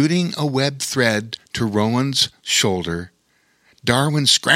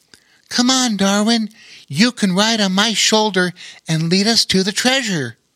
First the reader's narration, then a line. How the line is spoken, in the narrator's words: Rowan piped up